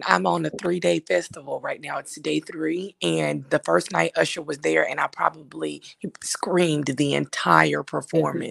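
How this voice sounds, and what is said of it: Hoarse, worn-out voice. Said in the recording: “My voice is gone”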